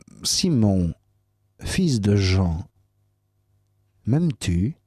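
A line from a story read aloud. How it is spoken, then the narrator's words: Plain. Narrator (French): Il répondit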